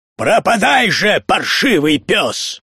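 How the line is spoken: Shouted. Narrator (Russian): Даниэль выкрикнул

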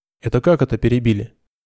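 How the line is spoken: Snorting. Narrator (Russian): фыркнул Айнот

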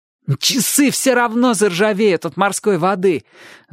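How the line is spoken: Boy's gloating exclamation. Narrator (Russian): злорадно воскликнул мальчик

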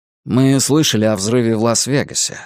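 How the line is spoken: Plain. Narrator (Russian): сказал Дэн

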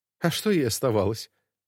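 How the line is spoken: Scoffing snort. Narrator (Russian): хмыкнула Ирина

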